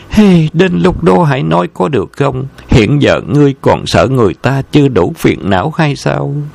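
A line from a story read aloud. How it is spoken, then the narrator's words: Sighing. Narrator (Vietnamese): Vân Ngọc Chân thở dài nói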